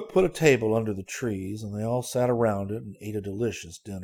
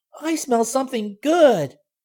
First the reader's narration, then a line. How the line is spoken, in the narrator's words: cried Benny